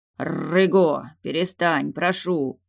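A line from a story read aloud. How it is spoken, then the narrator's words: Conciliatory deep bass. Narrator (Russian): примиряюще пробасил Далиль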